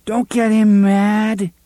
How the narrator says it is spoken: the voice of little Blaine begged

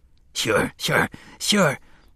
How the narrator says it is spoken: Kennelly whispered, the grin now touched with incredulity that he should still be alive

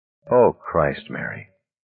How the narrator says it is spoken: he said, his voice hoarse

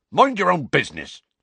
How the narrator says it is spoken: said Hagrid angrily

